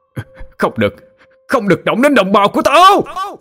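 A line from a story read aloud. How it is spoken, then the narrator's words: Roaring scream. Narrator (Vietnamese): Tiếng hét to tới mức cứ như một con trồng đang gầm vang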